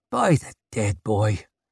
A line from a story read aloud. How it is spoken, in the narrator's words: grunted Clover